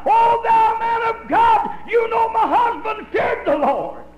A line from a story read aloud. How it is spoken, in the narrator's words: she cried out